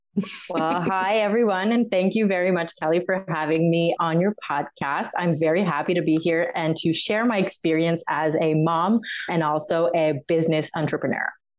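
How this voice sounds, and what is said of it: French-Canadian accent in English. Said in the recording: “She lives in Montreal, Canada, and has a beautiful accent, kind of, when she wants to.”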